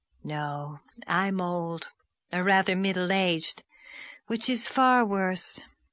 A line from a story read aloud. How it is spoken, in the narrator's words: sighed Miss Lavender